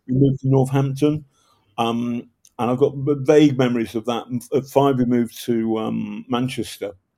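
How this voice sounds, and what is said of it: Slight northern English accent. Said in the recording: “you can tell I've got a slight northern accent”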